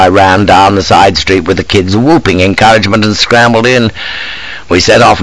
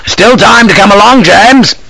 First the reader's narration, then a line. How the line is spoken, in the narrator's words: cried from the window